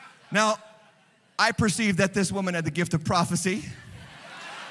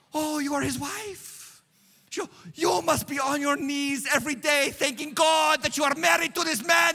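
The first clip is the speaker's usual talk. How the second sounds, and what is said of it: Thick Nigerian accent. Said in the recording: “a thick Nigerian accent”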